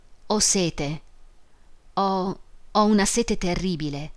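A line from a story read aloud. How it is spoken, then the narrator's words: Sighed. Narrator (Italian): sospirò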